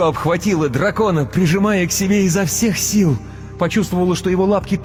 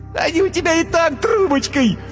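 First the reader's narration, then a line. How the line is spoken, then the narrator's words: Laughing. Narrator (Russian): Юмико захохотала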